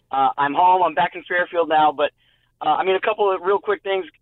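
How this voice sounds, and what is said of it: Hoarse, nearly lost voice. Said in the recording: “my voice is shot. It's completely gone.”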